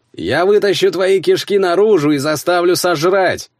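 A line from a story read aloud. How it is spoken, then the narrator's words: Yelling over another voice. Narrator (Russian): заорал я, перекрикивая старшего Ульфриксона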